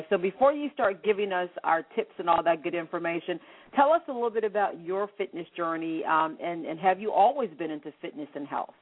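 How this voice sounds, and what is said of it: Congested, sick-sounding voice. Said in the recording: “if you can hear it in my voice, I'm coming down with a cold or something crazy ... I'm actually a little bit under the weather tonight”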